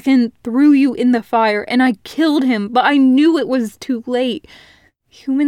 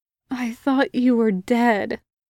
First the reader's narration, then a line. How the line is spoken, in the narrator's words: he said weakly